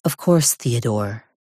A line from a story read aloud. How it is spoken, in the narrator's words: she murmurs